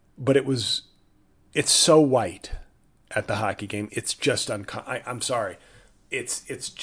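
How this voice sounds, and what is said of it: Usual voice. Nothing is said of it.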